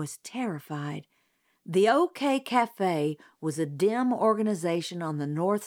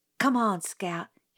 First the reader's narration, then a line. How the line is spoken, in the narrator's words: whispered